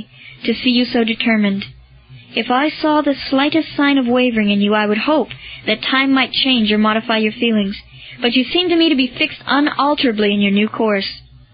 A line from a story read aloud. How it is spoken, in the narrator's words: said Lucullus sadly